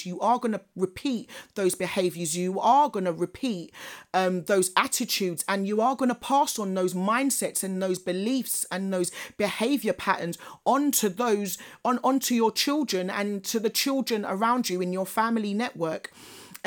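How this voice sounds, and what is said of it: Passionate, intense, breathless speech. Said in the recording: “I feel so passionate about this, and I'm sure you can hear it in my voice. ... Take a breather”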